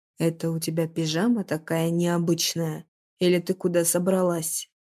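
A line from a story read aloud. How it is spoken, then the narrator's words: Growled. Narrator (Russian): Наконец прорычал он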